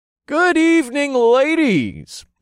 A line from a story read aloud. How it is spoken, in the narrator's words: I shouted from about a block away